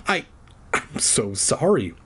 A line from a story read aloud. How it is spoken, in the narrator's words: I stammered